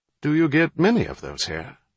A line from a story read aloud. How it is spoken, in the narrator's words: His Highness asked